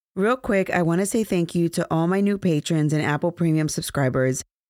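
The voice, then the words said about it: Hoarse, fading voice. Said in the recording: “pardon my voice. It feels like I'm losing my voice”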